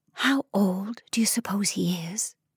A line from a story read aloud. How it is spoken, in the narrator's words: asked, dropping her voice